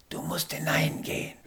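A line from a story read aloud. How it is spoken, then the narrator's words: Sudden whisper. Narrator (German): flüsternde Stimme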